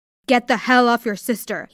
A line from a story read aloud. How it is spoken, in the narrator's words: barked